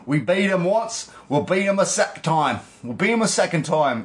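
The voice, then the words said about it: Poor put-on British accent. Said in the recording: “That's a terrible British accent.”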